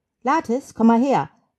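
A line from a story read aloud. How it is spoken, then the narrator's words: Calling across. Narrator (German): ruft hinüber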